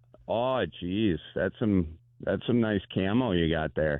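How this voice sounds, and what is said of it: Camp character voice, Wisconsin accent. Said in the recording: “A gay guy from Wisconsin... I love the gay guy from Wisconsin.”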